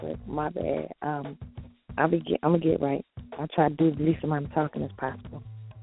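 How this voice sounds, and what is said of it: Slightly raspy voice. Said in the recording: “I'm a little raspy today”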